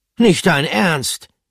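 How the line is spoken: Called out. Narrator (German): rief Pomme de Terre

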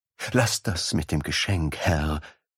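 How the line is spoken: Pleading. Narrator (German): flehte Basim

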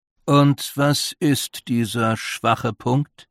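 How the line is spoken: Plain question. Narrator (German): fragte der Vierte

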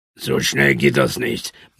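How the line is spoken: Murmured. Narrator (German): murmelte Adiaba

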